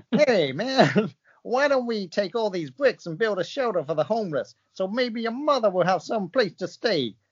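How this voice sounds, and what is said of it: Bad put-on American accent. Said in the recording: “here comes the American accent again ... same as The Situation voice ... Worst accent I've ever heard”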